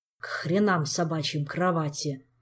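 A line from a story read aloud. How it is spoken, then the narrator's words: Exhausted grumble. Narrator (Russian): проворчал Кантер, видимо, из последних сил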